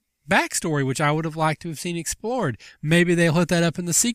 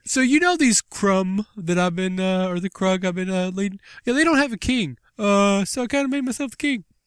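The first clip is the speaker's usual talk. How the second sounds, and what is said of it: Imitates another person's voice. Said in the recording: “really good Ray Liotta impression... how awesome ... impression of Ray Liotta was”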